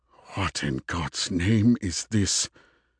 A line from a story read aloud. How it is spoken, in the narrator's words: he murmured to himself